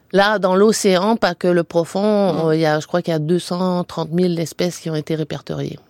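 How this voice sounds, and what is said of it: Québécois French accent. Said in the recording (French): “On peut l'entendre par votre accent ... vous êtes québécoise d'origine”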